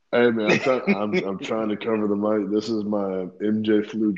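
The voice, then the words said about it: Gravelly, congested voice. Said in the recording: “I'm battling sinus and stuff. I caught over the weekend, so my voice might sound like gravel from here and there.”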